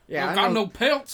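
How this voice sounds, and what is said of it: Imitated Southern American accent. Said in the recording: “weird accent ... definitely like an American, like kind of maybe Southern kind of thing.”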